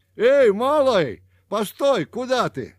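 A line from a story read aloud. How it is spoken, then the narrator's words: Shouting after someone. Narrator (Russian): крикнул ему вдогонку Пушкин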